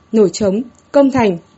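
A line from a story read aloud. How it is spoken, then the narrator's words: Loud proclaiming voice. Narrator (Vietnamese): hít sâu một hơi, cao giọng nói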